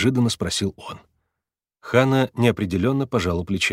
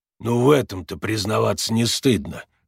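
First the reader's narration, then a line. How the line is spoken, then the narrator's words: Snorting chuckle. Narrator (Russian): хмыкнул Макс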